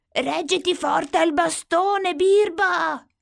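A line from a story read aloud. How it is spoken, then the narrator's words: Shout. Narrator (Italian): grida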